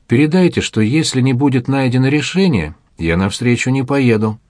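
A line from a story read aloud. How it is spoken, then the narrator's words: Calm. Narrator (Russian): Эдуард Амвросевич спокойно говорит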